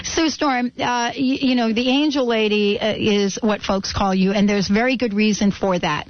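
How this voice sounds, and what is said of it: New York accent. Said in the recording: “speak French with a New York accent”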